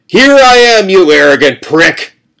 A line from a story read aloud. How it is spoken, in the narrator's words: shouted